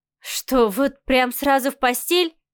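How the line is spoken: Scoffing snort. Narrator (Russian): хмыкнула Марианна

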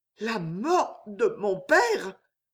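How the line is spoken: Stunned stammer. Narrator (French): bégaya Jeanne foudroyée

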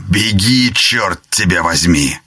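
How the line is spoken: Barked. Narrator (Russian): Помощник маршала рявкнул

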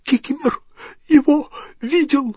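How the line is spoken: Wheezy creature voice. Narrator (Russian): просипел эльф

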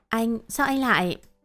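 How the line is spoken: Startled stammer. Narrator (Vietnamese): Bơ giác, Tôi lắp bắp nói

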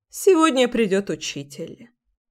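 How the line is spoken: Thoughtful. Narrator (Russian): задумчиво проговорила свекровь

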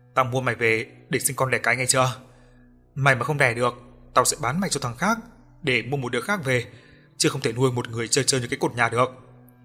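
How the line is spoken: Menacing, gritted voice. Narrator (Vietnamese): lão gằn giọng

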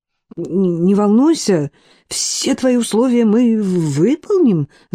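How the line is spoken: Babbling. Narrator (Russian): залепетал Мак

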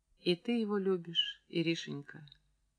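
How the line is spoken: Gentle, affectionate. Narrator (Russian): Она дала Иринке выплакаться, а потом сказала ласково

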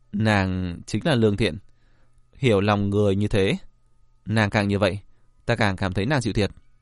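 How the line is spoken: Warm smiling speech. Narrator (Vietnamese): Diệp Viễn mỉm cười, nói

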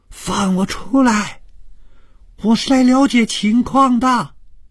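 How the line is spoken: Full-throated shout. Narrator (Chinese): 谭小颖放开了嗓子，大声地喊着

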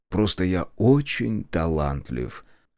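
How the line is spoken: Indifferent. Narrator (Russian): равнодушно отозвался я

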